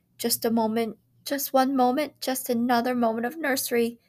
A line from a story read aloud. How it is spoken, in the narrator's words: they wailed